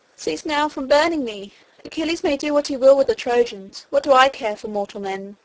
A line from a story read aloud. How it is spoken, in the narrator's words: the river god cried to the fire god